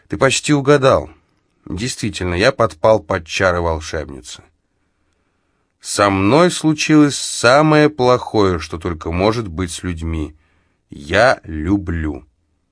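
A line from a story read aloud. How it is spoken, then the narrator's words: Dejected answer. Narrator (Russian): Ремигий ответил мне уныло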